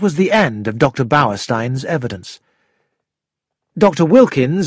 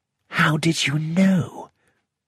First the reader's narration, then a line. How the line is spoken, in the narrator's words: I whispered to Poirot